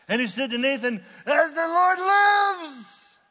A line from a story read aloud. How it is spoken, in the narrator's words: shouting